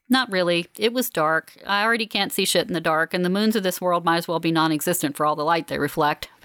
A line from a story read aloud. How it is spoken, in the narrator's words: Fallon says